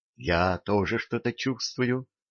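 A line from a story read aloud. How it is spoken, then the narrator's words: Whispering queen. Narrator (Russian): прошептала царица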